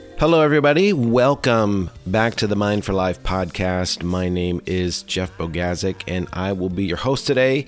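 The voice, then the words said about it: Voice affected by a cold. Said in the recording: “Please forgive my voice. I have been dealing with a little bit of a cold”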